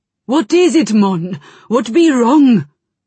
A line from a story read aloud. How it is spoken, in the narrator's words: The shaman answered, his voice borne to Vol'jin's long ears on the anxious wind